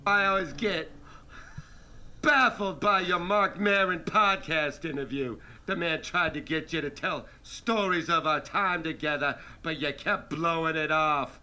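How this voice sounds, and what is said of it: Impression of Dice. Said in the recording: “doing an impression of Dice”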